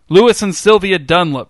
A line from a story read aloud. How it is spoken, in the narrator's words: shouted the woman